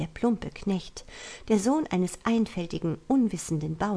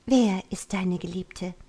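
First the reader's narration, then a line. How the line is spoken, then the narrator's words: Gentle pleading with sighs. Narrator (German): mit tausend sanften Worten, untermischt mit Seufzern, drang sie in ihn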